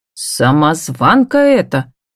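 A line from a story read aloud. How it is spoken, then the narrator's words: Deliberately rude, curt. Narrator (Russian): нарочито грубо роняет противная Кассия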